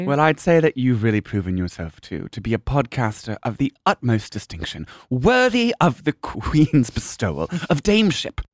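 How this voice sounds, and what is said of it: Put-on accent. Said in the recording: “I don't think I'm going to be able to leave the accent, darling.”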